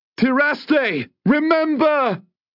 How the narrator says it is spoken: Varn cried out

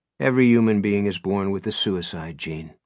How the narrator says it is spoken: a famous psychiatrist named Raymond Katz, who stated flatly

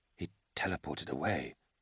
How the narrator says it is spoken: Kiss whispered, with growing realization

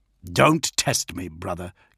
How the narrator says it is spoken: Gilliman snapped

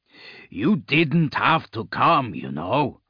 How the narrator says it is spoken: Dag growled, annoyed now

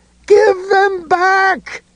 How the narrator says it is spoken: Ed screamed

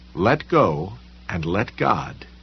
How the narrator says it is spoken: it said

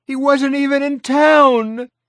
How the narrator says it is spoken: Marcy wailed

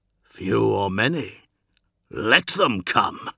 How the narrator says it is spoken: growled Dawn

